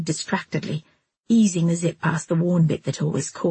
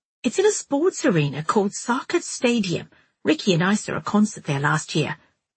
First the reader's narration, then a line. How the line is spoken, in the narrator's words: Miranda chipped in